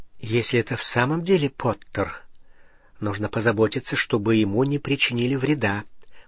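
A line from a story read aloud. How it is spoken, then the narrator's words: Muttering to herself. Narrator (Russian): пробормотала она как будто самой себе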